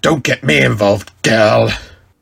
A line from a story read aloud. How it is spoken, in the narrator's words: Sabretooth growled at her